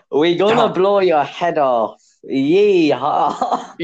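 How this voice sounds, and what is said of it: Attempted Texan accent sounding Welsh. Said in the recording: “give me an American person to impress, like, give me a state in America. ... Texas. ... You sound Welsh. ... Texas Welshman.”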